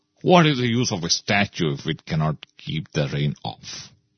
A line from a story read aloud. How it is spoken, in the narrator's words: said